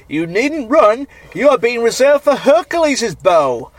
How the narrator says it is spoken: Asbolus shouted out to him, saying

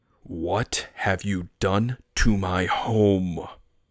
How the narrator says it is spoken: I growled

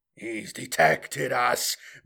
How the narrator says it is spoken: Moreau snarled with a curse

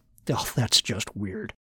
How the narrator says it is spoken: Martin muttered to himself

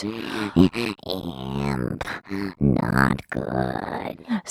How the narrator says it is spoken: Simon hissed with disdain

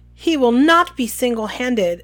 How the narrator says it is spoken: said Professor McGonagall loudly

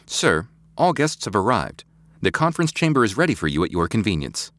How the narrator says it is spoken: Halliday said

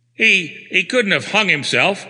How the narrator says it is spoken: quavered the valet

